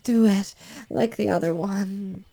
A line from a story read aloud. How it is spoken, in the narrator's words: She moans and can't seem to get out what she wants to say, she moans